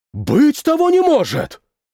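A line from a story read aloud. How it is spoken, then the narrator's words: Shout. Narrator (Russian): крикнул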